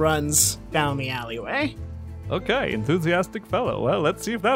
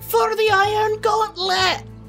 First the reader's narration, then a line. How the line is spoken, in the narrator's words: shouts